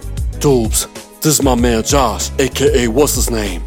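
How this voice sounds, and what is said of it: Deep Barbadian accent. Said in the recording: “in his deep Barbadian accent”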